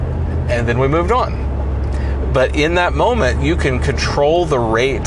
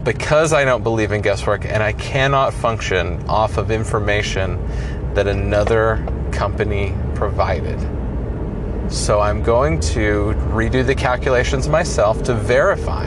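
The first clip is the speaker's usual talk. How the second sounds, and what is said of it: Slower, lower, serious tone. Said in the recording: “you hear me slowing down. I lowered my tone of voice and I got very serious for a moment”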